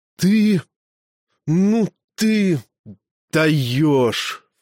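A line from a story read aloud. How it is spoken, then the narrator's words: Halting breathless gasp. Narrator (Russian): в три приема выдохнул амфитрион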